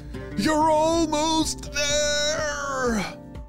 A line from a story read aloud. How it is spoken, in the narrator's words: Ollie shouted from underneath